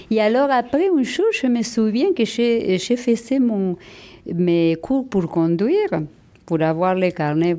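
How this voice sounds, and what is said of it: Argentine Spanish accent in French. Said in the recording (French): “a rigolé avec mon accent ... mon accent argentin, c'est ma fierté. Mon argent et espagnol”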